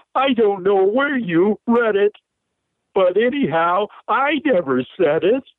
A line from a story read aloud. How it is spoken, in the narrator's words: He howled